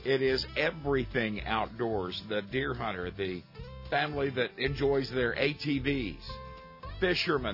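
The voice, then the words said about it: Strained voice, losing it. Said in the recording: “You can tell I'm losing my voice here.”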